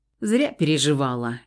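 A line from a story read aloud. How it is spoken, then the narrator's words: Snorting. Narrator (Russian): хмыкнул Дор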